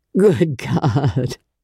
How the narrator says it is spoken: He groaned again

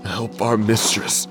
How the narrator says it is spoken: Miles moaned, crayfish feasting on the tattered remains of his lips

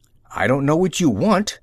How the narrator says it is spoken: snapped the general

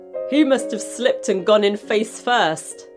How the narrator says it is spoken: he laughed

